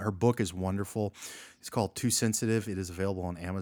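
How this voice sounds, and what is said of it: Usual voice. Nothing is said of it.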